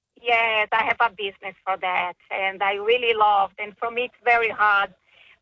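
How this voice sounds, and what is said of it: Foreign accent, possibly Hungarian. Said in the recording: “they're so hard to understand my accent ... I think I've heard this accent before ... it sounds Hungarian to me”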